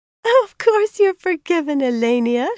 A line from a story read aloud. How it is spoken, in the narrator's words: laughed, her face lightening